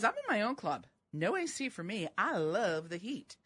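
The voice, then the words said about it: Put-on southern US accent. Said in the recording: “Why did you give her a southern accent?”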